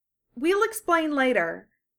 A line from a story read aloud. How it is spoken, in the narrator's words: Sakura said